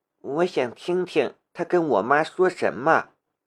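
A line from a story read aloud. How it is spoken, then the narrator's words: Quiet, low voice. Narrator (Chinese): 梁思瑶小声的道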